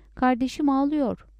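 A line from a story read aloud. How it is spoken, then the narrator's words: Shouted. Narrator (Turkish): diye bağırdı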